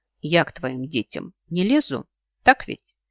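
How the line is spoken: More threatening tone. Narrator (Russian): Несколько более угрожающим тоном продолжает Азамат

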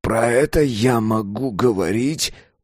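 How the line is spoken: Groan. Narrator (Russian): он застонал

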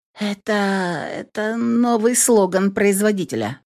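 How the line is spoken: Strained, forced out. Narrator (Russian): выдавила я из себя

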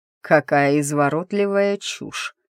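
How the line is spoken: Cold, through teeth. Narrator (Russian): холодно процедил Ричард

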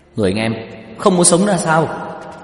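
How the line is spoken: Shocked shout. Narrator (Vietnamese): Tiêu Dật Vân trợn mắt há mồm hét lên

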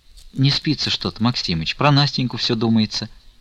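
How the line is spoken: Barely audible reply. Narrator (Russian): едва слышно отвечала Аксинья Захаровна

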